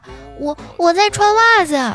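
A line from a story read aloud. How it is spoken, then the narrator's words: Loud answer. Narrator (Chinese): 儿子大声回答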